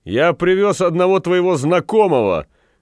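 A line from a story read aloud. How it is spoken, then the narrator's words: Shout. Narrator (Russian): крикнул Петвик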